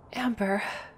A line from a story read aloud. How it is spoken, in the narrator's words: Emerald muttered